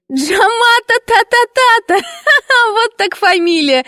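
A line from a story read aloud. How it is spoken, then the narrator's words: Wild laughter, mischievous girl. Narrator (Russian): отчаянно захохотала шалунья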